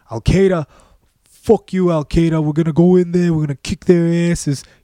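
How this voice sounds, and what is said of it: Poor put-on New York accent. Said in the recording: “That's probably terrible. That was probably a terrible New York accent.”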